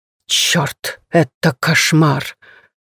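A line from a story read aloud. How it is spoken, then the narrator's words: Quiet hissing curse. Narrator (Russian): Словно ползущая по земле змея, тихо шепчет проклятие Усуи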